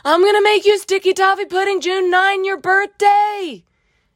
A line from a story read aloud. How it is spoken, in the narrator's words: yelled the 12-year-old